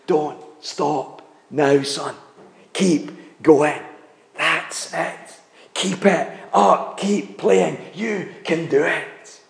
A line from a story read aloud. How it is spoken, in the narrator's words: he stood down to whisper in the boy's ears